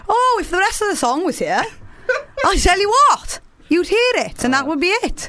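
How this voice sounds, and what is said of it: Put-on Welsh accent. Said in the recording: “I enjoy you doing the Welsh accent.”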